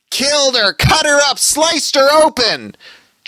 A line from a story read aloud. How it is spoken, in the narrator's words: George screeched suddenly